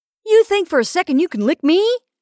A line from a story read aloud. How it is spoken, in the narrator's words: Danny blurted in